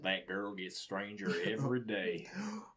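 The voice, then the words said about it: Put-on Western cowboy accent. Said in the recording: “he said in a Western accent”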